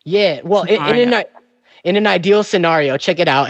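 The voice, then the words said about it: Exaggerated New York accent. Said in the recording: “I'm overemphasizing my New York accent right now.”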